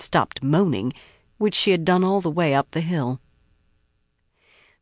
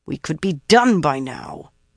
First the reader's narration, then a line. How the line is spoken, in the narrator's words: Nynaeve growled